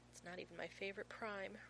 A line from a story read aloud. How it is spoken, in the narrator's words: Rodney says sadly, as though actively mourning 5,573